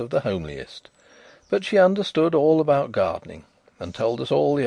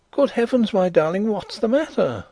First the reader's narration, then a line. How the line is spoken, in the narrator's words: I cried